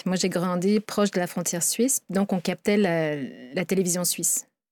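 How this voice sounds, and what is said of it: European French accent. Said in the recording (French): “mon accent, vous entendez que je suis outre-Atlantique”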